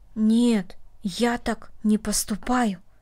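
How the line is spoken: Quiet. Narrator (Russian): тихо сказал Дина

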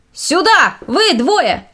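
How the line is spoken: Shout. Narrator (Russian): закричал боцман

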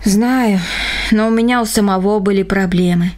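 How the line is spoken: Sighing. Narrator (Russian): вздохнул Рома

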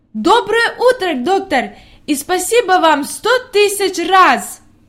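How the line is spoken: Exclamation. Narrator (Russian): воскликнула

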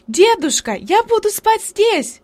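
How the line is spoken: Shouting. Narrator (Russian): крикнула она

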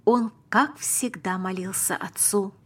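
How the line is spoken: Plain. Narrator (Russian): сказал папа

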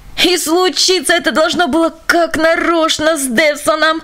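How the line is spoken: Groaning. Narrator (Russian): простонал господин Ренсон

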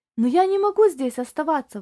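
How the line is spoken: Strained exclamation. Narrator (Russian): воскликнул Тони, пытаясь приподняться и тут же падая назад

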